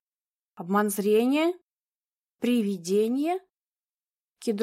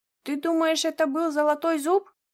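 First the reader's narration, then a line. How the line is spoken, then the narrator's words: Frightened question. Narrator (Russian): испуганно спросил Моцарелл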